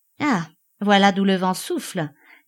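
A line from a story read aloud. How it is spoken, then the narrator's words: Curt. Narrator (French): dit enfin sèchement Enchard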